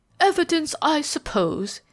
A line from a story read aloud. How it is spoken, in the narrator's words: interposed Ralph Mainwaring with a sneer